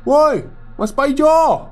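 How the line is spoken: Shouting. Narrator (Indonesian): teriakku

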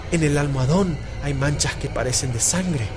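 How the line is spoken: Low calling voice. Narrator (Spanish): llamó a Jordán en voz baja

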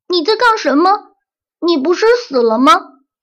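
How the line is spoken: Crying out. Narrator (Chinese): 艾斯本叫道

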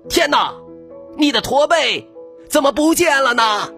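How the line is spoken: Excited shout. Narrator (Chinese): 激动地大叫道

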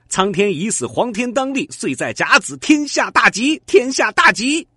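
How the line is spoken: Chanted slogan. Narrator (Chinese): 喊着他们特有的口号

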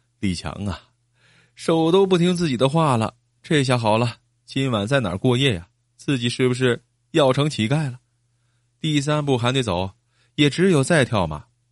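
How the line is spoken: Inward weeping. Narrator (Chinese): 李强心里在哭

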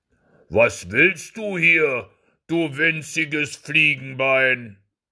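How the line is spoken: Thunderous booming shout. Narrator (German): rief der mit seiner Stimme, als wenn von allen Seiten es donnerte

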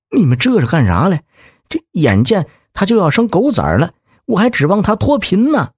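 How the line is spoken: Anxious, near tears. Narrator (Chinese): 李二狗急得快哭了，说

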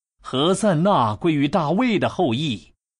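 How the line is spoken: Children shouting. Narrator (Chinese): 孩子们在圣殿里呼喊说

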